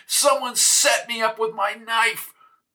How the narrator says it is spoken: he yelled

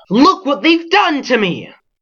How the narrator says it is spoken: He set up such a holler and outcry

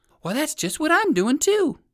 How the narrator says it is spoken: exclaimed Fido Flip-Flop

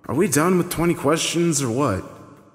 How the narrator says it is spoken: Wayne asked with an exasperated sigh

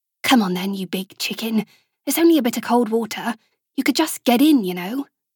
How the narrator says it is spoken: muttered to herself, her words muffled by the seaside sounds, as soft as they were

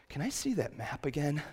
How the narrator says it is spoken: The genie just let out a long sigh and said

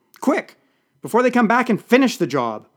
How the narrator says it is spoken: shouted

